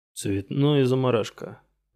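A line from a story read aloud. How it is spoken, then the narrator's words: Disappointed grumble, chef. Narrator (Russian): недовольно буркнул шеф-повар, разочарованный, что не удалось позлорадствовать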